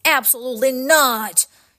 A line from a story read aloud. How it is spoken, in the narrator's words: shouted the professor